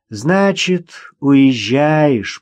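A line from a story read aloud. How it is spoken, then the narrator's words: Drawn-out. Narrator (Russian): протянула Вера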